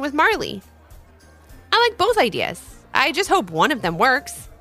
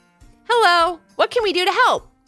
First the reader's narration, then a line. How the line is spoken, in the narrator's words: called out Levi